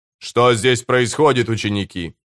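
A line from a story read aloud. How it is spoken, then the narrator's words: Stern question. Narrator (Russian): строго спросил Нимма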